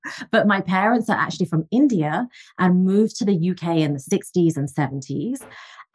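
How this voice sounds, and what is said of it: English accent. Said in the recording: “So I'm originally from England, as you can tell from the accent.”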